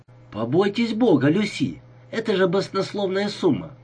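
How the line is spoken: Exclaim. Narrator (Russian): воскликнул Лукан

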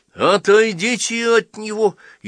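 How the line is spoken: Frightened shout. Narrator (Russian): испуганно крикнул Седой Джону

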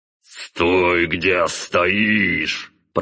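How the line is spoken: Gritted teeth, magical voice, father. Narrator (Russian): процедил сквозь зубы отец, активировав магию голоса

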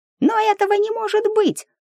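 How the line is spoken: Surprised squeak. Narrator (Russian): удивленно пискнул Мик

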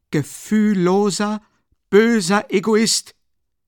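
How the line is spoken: Calling after someone. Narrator (German): rief Dunja ihm nach

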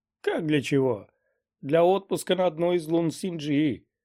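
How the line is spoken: Chuckling. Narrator (Russian): Гуэра хохотнул

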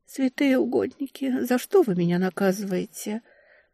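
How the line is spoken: Muttering. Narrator (Russian): пробормотала я

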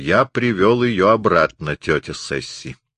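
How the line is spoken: Cool, resolute tone. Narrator (Russian): сказал своим обычным, хладнокровным и решительным тоном

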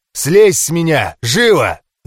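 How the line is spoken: Barked. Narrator (Russian): рявкнул Кэррилор

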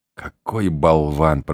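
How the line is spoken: Whispered in ear. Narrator (Russian): прошептала она мне на ухо

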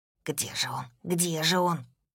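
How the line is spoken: Whisper from behind. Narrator (Russian): услышала я за спиной его шепот

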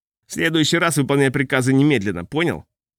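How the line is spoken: Angry. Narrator (Russian): он зло сказал

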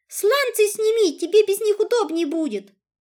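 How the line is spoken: Shout. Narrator (Russian): я, крикнув ему вслед

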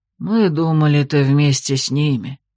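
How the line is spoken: Disappointed old man's mutter. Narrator (Russian): разочарованно буркнул дед

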